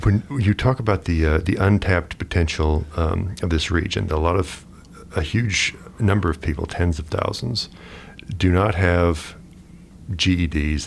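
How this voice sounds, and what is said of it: Smooth radio announcer voice. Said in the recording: “You have a great radio voice ... It's like I'm listening to NPR or something.”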